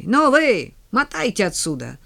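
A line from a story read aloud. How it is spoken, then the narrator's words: Shouting at a crowd. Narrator (Russian): закричал он разношерстной толпе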